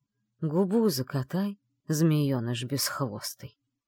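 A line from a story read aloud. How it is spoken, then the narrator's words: Offended grumble. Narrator (Russian): буркнул обиженный Шейс Салех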